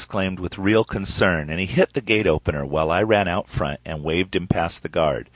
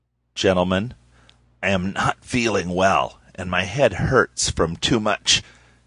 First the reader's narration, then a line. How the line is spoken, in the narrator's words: he rasped